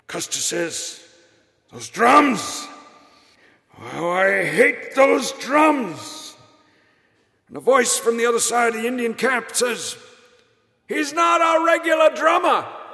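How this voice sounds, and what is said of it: Impression of Larry Storch. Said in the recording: “I don't tell it well, but I'm giving you my impression of Larry Storch”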